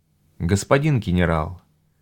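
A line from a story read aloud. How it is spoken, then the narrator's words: Quiet speech. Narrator (Russian): тихо сказала Дина Лан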